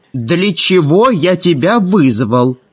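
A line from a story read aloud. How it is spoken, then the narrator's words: Very loud indignation. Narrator (Russian): очень громко возмутился Гессер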